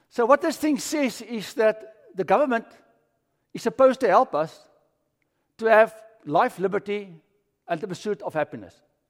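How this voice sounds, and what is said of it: British-sounding South African accent. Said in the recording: “That's why I still have this accent, you see? Yeah. Still sound like James Bond.”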